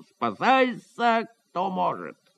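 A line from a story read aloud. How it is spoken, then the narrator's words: Wild scream. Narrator (Russian): закричал диким голосом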